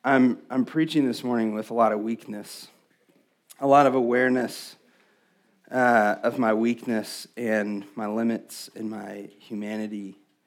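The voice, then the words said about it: Hoarse, fading voice. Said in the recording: “I'm losing my voice, if you can't tell”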